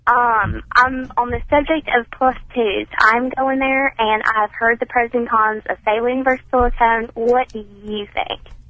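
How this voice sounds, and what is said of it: Young-sounding woman, slight accent. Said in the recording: “She sounds ... young. ... Weird little accent.”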